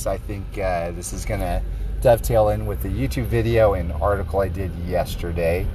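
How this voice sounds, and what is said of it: Sick, slightly off-sounding voice. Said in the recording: “my voice sounds a little off for this episode. I'm sick.”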